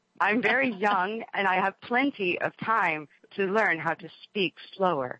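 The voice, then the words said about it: Slow, deliberate parental teaching voice. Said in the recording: “that's my mom voice. ... Voice I use when I'm teaching Noah about something that I feel is important information.”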